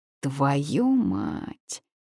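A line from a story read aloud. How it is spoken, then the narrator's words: Hissing. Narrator (Russian): зашипела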